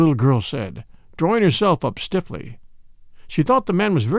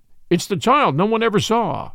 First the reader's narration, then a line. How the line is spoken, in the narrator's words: exclaimed the man